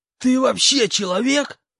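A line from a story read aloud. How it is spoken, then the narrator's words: Hissed. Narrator (Russian): прошипел хобот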